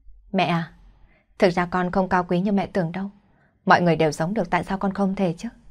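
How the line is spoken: Smiling reply. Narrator (Vietnamese): Quân Lương mỉm cười đáp

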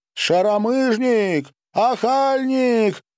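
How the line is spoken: Hysterical shrieking woman. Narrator (Russian): истошно вопила баба

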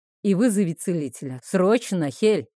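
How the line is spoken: Sharp shout. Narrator (Russian): прикрикнул Нейтан

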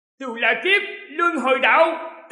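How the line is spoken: Roar. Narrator (Vietnamese): Nhị hoàng tử gầm lên

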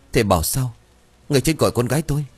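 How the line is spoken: Panicked distraught voice. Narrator (Vietnamese): Bà Bèo thì mặt cắt không còn giọt máu, hoảng loạn hỏi bằng giọng lạc thần

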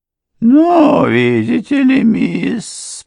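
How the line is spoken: Embarrassed drawl. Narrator (Russian): протянула госпожа Крент, покраснев еще сильнее

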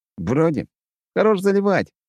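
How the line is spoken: Chuckling. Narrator (Russian): хохотнул я

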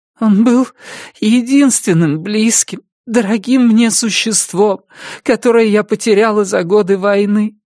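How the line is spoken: Sobbing. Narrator (Russian): сказала, всхлипывая, Карлотта

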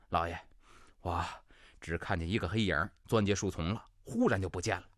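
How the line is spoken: Breathless, panting. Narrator (Chinese): 马蓉气喘吁吁

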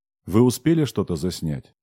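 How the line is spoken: Plain question. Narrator (Russian): спросил Технос

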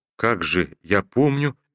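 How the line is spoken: Uncertain muttering. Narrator (Russian): Неуверенно забормотал Ромашов

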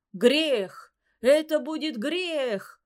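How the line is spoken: Startled shout. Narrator (Russian): крикнул опешивший шаман

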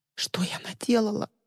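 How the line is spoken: Sob. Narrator (Russian): всхлипнула Ли

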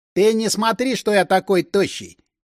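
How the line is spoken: Snide, mocking remark. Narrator (Russian): ехидно изрек Соколов

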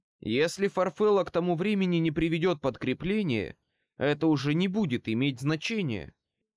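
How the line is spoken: Plain. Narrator (Russian): ответил Хот

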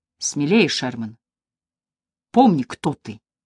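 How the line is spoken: Quiet but firm. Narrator (Russian): Тихим, но твердым голосом она сказала

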